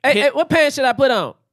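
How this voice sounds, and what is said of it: Imitates another person's voice. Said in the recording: “doing an impression of Cuba Gooding Jr. ... There's an impression of Cuba Gooding Jr.”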